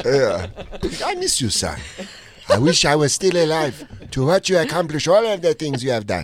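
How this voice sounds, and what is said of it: Put-on African accent, fatherly voice. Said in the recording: “do an impression of your dead father as an African man? ... I do ... African dead dad”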